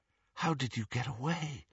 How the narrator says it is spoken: Harry asked, and he was not surprised to hear himself whispering

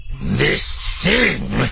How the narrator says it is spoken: Tolrock growls

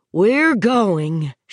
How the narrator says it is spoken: she said grimly

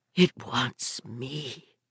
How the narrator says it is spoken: she whispered through her blistered lips

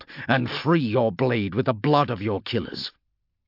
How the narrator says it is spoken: Polixis snarled

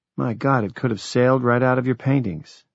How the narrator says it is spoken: Jack breathed

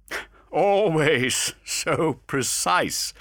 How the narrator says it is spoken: laughed Alcade

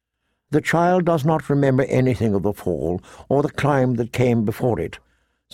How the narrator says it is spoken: said Maester Lewin gently

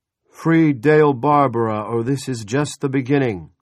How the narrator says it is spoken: an amplified voice bellowed

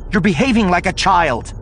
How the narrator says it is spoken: Leia snapped, abandoning any attempt to be diplomatic about this

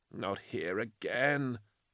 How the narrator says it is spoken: he murmured

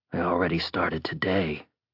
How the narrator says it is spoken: the thief muttered to an empty room

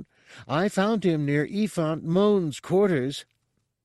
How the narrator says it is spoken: Reis called out

